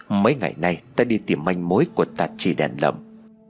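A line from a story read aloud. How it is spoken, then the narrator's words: Quiet voice. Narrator (Vietnamese): hắn nhỏ giọng rồi nói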